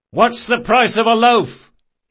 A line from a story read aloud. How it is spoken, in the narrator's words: he shouted